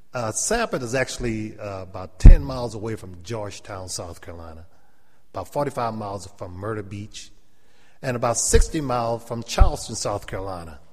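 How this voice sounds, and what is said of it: Gullah Geechee South Carolina accent. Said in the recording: “that's why we talk funny ... we are Geechee or Gullah ... I still have my Gullah or my Geechee accent.”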